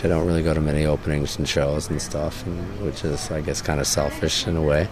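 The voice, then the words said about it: Hoarse, strained, weakened voice. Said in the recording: “You can hear right now I've lost my voice because I don't talk much.”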